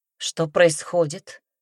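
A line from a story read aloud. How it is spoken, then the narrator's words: Flat, even tone. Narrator (Russian): спросила Темпест ровным тоном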